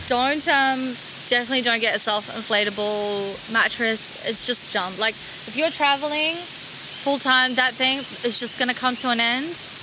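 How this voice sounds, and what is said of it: Non-native English accent. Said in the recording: “my accent ... That's my accent ... There's just certain words that I pronounce differently ... English is my second language”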